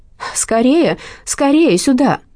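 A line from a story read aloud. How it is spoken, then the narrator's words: Woman's urgent exclamation. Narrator (Russian): женщина в белом халате воскликнула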